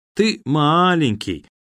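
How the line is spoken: Sing-song lullaby drawl. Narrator (Russian): певуче протянул Серый, совсем так, как он пел странную колыбельную

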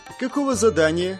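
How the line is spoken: Snide question. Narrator (Russian): ехидно спросила Исикуль

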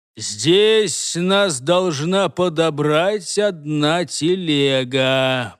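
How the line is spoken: Drawling sorcerer. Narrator (Russian): протянул между тем черный колдун

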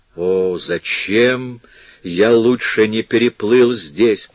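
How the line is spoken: Moaning. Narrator (Russian): простонал он

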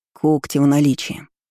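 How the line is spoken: Gloomy demon grumbling. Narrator (Russian): проворчал демон мрачнее с каждой минутой

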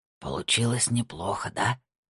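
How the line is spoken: Whisper. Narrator (Russian): прошептал Хоровиц

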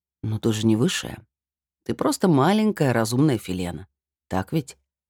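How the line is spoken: Overly tender question. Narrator (Russian): спросил он как-то слишком уж ласково

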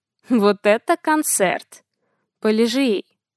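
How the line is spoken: Quiet command. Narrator (Russian): скомандовал негромко

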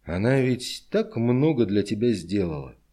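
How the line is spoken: Reproachful voice. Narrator (Russian): Пономарев укоризненным голосом произнес

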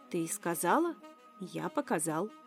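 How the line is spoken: Calm reasoning. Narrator (Russian): рассудил спокойно Тай

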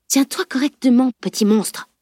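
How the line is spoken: Menacing whisper. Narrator (French): souffla-t-elle sur un ton menaçant

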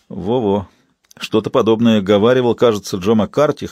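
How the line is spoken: Wry grunt. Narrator (Russian): хмыкнул Уилли

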